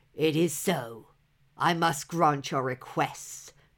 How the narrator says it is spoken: growled the giant

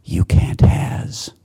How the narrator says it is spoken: whispered softly

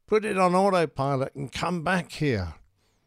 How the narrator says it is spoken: Dave Saunders is shouting

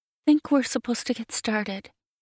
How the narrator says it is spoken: She swallows nervously before she says

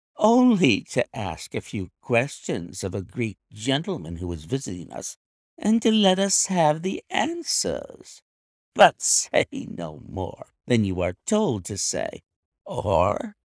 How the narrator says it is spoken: here came the nervous giggle again

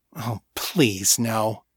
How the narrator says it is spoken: he muttered

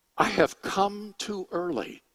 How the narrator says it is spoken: he said

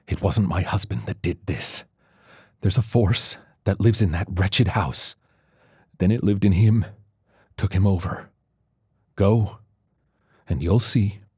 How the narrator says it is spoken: She whispered, almost angrily

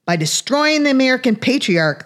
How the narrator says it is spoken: cried exuberantly

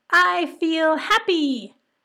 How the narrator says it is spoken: almost cried

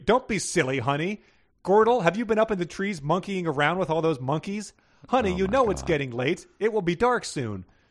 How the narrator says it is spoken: Glendra Gorilla yelled from Bubo's nursery

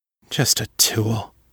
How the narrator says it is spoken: she muttered

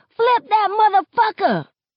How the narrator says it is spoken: somebody yells

